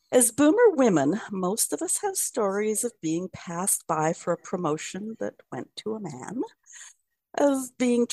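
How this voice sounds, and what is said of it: Canadian accent. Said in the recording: “I'm a white waspy woman with a Canadian accent.”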